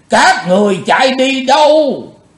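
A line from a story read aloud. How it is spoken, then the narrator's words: Loud roar. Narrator (Vietnamese): Bạch Phát Ma Cơ gầm to lên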